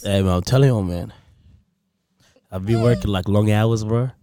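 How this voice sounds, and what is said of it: Strained, hoarse voice, not normal. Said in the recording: “do I actually sound bad, though? ... No, you don't sound too bad. ... Doesn't sound normal. ... So this is ... slick voice. ... I'm kind of losing my voice here.”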